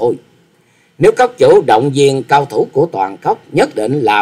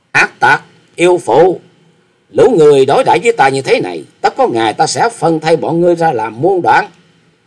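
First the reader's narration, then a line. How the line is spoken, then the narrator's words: Loud berating. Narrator (Vietnamese): Chàng lớn tiếng mắng rằng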